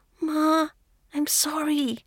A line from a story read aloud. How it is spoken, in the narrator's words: Renshu whispers